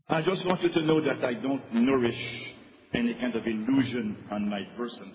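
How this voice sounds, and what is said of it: Strong foreign accent in English. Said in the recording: “I don't have a little accent. I have a strong and awful accent.”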